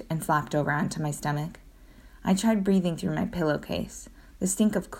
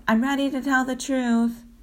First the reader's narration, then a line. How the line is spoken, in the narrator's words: yelled